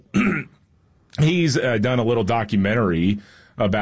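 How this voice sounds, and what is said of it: Usual voice. Nothing is said of it.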